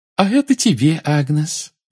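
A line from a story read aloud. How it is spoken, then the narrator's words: Cheerful. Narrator (Russian): весело сказала целительница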